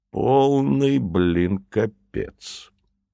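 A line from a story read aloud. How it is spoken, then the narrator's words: Thoughtful, to himself. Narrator (Russian): задумчиво произнес губернатор, словно бы сам себе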